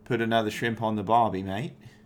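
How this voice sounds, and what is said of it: Attempted Australian accent. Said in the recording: “an intro with an Australian accent”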